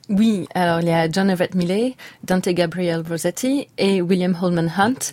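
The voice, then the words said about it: Perfect English accent on names. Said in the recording (French): “votre accent anglais, il est parfait”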